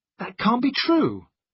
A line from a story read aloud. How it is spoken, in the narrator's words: I cried